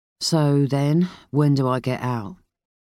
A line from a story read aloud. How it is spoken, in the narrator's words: Lomax asked sleepily